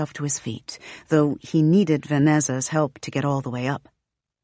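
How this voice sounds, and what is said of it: Usual voice. Nothing is said of it.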